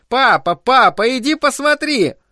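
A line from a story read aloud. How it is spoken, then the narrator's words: Alarmed shout. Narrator (Russian): Стефи заметила оборванные провода и закричала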